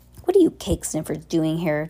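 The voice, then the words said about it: Obnoxious bratty character voice. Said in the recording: “in an obnoxious voice”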